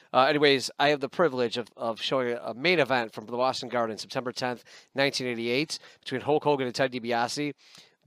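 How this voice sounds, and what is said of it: Voice sounds slightly off. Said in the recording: “if I sound a little weird this week ... I think my voice is finally returning ... if I sound a little different”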